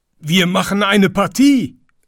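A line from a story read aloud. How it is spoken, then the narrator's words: Animals calling together. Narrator (German): rief alles Vieh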